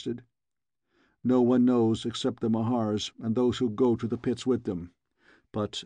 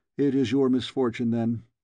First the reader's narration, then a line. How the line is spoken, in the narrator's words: he remarked dryly